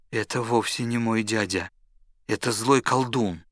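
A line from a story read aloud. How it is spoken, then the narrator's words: Weak voice. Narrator (Russian): сказал Аладдин слабым голосом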